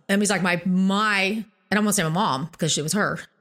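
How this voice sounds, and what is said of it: Choked-up, emotional voice. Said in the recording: “Sorry, I'm getting a little choked up.”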